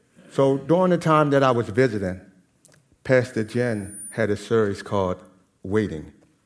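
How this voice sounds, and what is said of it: Speaks with a noticeable accent. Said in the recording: “I understand that I have an accent, so some words may not come off the best of way.”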